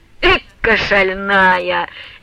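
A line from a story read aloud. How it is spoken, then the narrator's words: Loud merry guffaw. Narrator (Russian): весело во всю мощь захохотал Самоквасов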